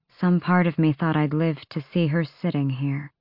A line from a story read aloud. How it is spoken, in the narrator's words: she said quietly